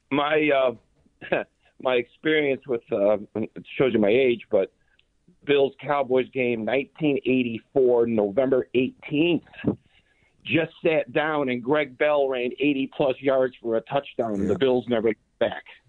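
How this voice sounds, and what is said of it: Rough, congested voice. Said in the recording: “excuse my voice. I had a cold.”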